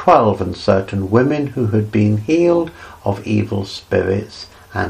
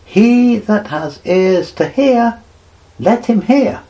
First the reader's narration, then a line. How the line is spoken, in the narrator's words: he cried